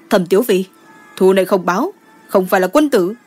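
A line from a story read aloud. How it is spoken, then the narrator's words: Threatening. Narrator (Vietnamese): Đỗ Hần Ngôn cất giọng dọa nạt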